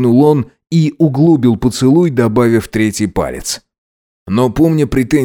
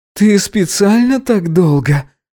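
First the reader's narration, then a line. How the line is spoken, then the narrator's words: Moaning. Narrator (Russian): простонал Гидеон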